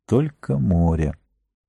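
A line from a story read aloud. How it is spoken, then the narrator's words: Quiet repetition to himself. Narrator (Russian): И он тихонько повторил про себя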